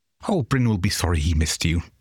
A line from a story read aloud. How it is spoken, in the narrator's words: said